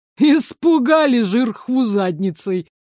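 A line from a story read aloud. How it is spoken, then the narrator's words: Insulting snort. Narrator (Russian): оскорбительно хмыкнул Ларс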